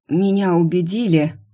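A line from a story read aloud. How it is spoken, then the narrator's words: Hoarse rasp. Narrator (Russian): прохрипела сбоку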